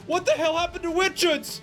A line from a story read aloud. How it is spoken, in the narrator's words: one of the nearby soldiers scream